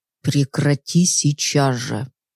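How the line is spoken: Very quiet. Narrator (Russian): сказанные очень тихо слова

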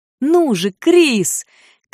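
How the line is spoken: Shout. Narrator (Russian): крикнула ему отрава

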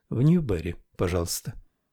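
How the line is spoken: Quiet. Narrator (Russian): Таниф негромко сказала

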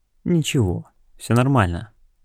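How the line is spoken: Calm female voice. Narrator (Russian): спокойно сказала она

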